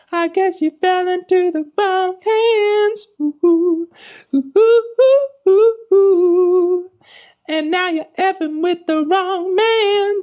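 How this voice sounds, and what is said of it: Sweet, sassy falsetto singing. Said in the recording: “singing in this very, I guess, somewhat sweet, somewhat sassy falsetto ... a bit of a like an old school girl group quality to it ... the singing is a bit goofy”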